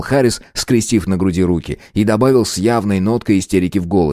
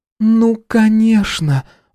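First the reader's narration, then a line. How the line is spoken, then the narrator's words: Exhaled. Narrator (Russian): выдохнула Мэгги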